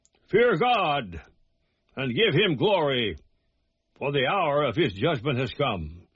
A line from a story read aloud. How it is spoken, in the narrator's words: that angel cried with a loud voice